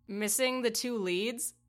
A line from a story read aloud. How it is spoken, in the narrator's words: Tristan laughed